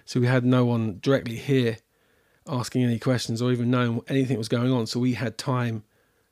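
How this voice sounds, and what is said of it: British accent. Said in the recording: “as you probably tell by my accent, all our family is abroad in the UK”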